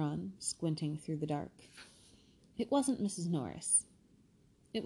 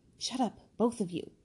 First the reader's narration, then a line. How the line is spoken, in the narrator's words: said Harry sharply